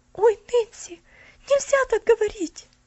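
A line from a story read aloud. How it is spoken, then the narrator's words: Frightened exclamation. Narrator (Russian): испуганно воскликнула Поллианна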